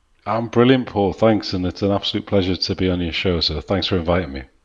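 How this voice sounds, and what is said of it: Soft northeastern English accent. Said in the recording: “another delightful northeastern accent ... You've got a very nice, soft accent.”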